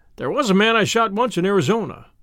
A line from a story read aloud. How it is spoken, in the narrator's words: he began cheerfully